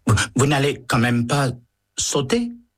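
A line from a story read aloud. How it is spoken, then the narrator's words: Stammering. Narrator (French): balbutie le liftier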